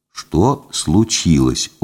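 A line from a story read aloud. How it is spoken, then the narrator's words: Very quiet question. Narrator (Russian): очень тихо спросил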